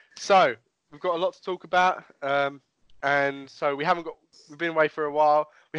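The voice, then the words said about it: Congested, slightly nasal voice. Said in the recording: “if I sound a little bit snotty, I've had the coronavirus last week ... my voice sounds a little bit nasally”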